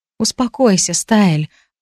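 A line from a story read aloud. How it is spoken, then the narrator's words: Gentle, affectionate. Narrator (Russian): ласково проговорила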